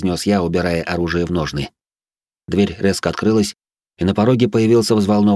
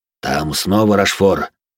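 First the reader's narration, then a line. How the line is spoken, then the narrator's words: Worried voice. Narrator (Russian): произнес он обеспокоенным голосом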